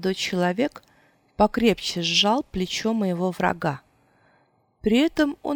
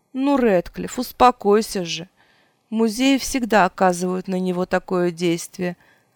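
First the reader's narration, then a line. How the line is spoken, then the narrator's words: Explaining, then laughing. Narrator (Russian): объяснил молодой человек и снова рассмеялся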